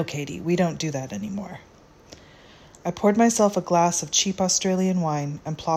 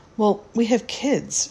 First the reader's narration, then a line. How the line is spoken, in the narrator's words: countered shakily